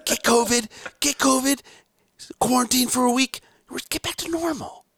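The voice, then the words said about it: Imitates another person's voice. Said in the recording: “This is my Biden... This is my Joe Biden impression... That's actually a good Joe. I like that Joe Biden.”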